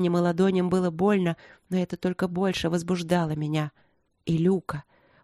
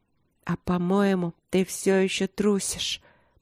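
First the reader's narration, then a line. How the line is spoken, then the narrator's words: Whisper. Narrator (Russian): прошептала я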